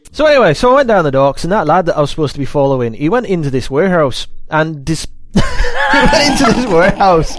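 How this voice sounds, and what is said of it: Attempted Scottish accent slipping into Irish. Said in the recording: “it kind of goes a bit Sean Connery ... Oh God, I am now Irish ... Why do I ever even try doing accents?”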